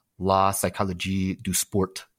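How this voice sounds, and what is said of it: Mock French accent. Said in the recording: “that is as good as my French accent gets”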